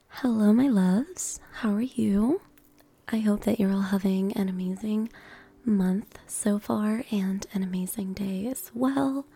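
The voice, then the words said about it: Scratchy, strained voice. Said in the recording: “My voice is kind of scratched ... my voice is really going through it tonight”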